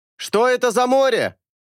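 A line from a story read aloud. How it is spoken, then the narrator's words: Shouting. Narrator (Russian): крикнул Эйнар моряку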